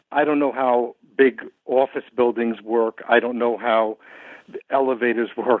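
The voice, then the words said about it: New York accent. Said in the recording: “as you can tell from my accent, this is my hometown ... a place like New York”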